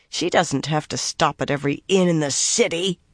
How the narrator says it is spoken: Nynaeve growled

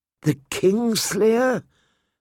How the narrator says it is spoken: Sir Barristan said, his voice hard with contempt

